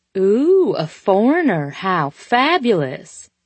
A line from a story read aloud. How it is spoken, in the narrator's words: she said, laughing, putting on her thick southern drawl